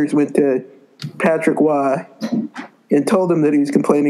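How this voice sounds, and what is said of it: Usual voice. Nothing is said of it.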